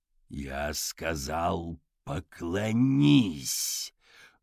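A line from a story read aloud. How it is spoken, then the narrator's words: Growled. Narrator (Russian): прорычал Каллаган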